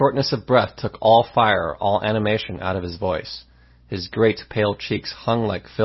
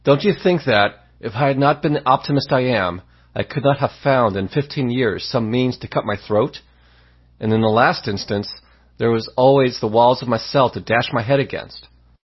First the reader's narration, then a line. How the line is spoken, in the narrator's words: after a gasp or two, he added